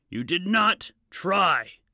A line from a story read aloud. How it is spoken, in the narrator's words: yelled